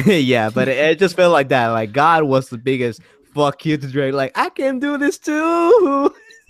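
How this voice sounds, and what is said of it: Noticeable accent. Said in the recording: “is my accent too thick?... it's just your accent, man... maybe your accent's thinking a little”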